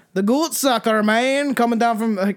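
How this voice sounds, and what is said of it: Put-on Scottish accent. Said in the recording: “I'm just doing some Scottish accent. That's what it sounds like.”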